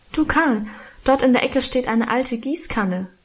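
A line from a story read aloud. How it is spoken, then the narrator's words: Calling out. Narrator (German): rief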